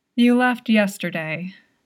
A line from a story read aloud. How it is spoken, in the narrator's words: Jingbei Yuan sighed